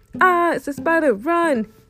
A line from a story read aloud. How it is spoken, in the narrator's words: Milo yells